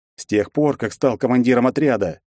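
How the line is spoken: Sharp declaration. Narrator (Russian): резко заявил я

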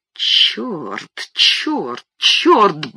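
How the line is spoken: Muttering. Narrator (Russian): бормотал

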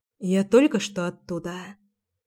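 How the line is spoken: Quietly said. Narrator (Russian): тихо сказала я

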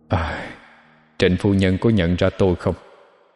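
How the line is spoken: Sighing. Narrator (Vietnamese): thở dài nói với Lã Y

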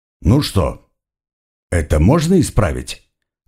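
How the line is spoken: Even-voiced question. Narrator (Russian): ровным голосом поинтересовался Халлан

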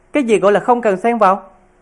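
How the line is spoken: Furious. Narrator (Vietnamese): Hành Mỹ Lan tức giận

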